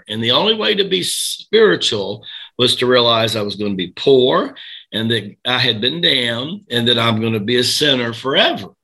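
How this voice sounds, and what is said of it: Southern American accent. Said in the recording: “rural Tennessee, where I get this Southern accent from”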